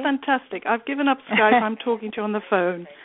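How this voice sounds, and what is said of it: Mixed South African and English accent. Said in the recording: “I love hearing your accent ... Is it a strong English strange accent? ... you're South African ... And English, right? You're a mix. ... I'm a strange colonial mix. ... A beautiful accent.”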